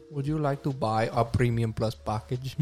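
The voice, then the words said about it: Put-on Indian accent. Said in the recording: “Indian accent, and ... is really good at Indian like impressions. ... Very good at it.”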